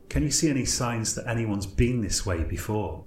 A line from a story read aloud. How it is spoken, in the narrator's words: I asked